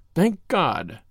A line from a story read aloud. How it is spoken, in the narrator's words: he muttered